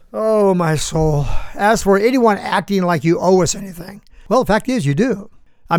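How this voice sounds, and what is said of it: Usual voice. Nothing is said of it.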